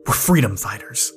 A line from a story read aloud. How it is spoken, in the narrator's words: shot back angrily